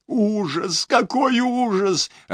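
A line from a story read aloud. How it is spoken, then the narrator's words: Sobbing. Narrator (Russian): рыдала Лори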